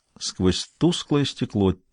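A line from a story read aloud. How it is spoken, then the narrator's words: Quiet voice. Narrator (Russian): тихо произнес Бувар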